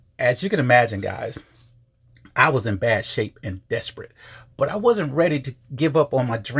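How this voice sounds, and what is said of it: Usual voice. Nothing is said of it.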